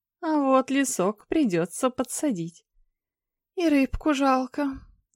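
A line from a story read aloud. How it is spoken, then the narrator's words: Sad sigh. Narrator (Russian): вздохнул печально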